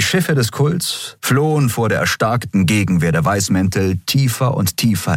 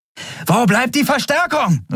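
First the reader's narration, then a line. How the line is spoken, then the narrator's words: Shout over noise. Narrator (German): rief sie über den Lärm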